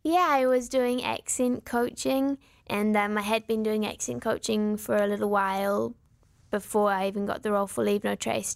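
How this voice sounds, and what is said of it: New Zealand accent. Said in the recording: “this beautiful New Zealand accent”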